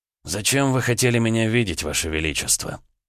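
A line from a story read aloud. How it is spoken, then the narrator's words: Hoarse, strained voice. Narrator (Russian): Голос полковника звучал хрипло, словно снова возникла проблема со связками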